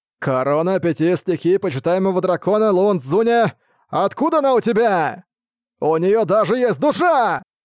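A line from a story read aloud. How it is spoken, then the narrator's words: Disbelieving shout breaking into scream. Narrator (Russian): полное неверие в происходящее, срываясь на крик, он прокричал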